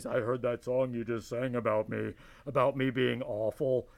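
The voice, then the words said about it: Big deep booming voice. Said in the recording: “in big deep voice.”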